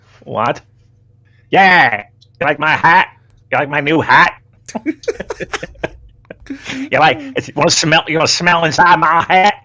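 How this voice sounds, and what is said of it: Imitates another person's voice. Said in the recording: “That's my Michael Hayes imitation. Pretty good, right?”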